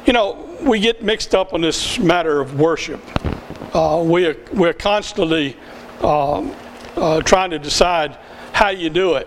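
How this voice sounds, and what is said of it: Southern US accent. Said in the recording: “I'm from the South. There's no denying that. You can hear that from my accent.”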